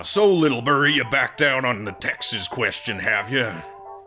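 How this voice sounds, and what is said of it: Put-on Southern American accent. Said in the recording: “read in your southern accent”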